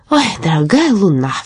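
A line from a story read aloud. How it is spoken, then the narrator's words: Wistful sigh. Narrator (Russian): вздохнул Каспер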